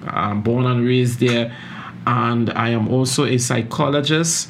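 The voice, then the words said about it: Caribbean accent. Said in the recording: “I know some of you are hearing my accent and wondering where where this guy is from. I am originally from the Caribbean, uh, so that's where I get my accent”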